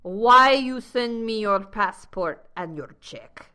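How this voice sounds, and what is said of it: Deliberately bad put-on Russian accent. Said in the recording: “I'm doing a very bad Russian accent right now.”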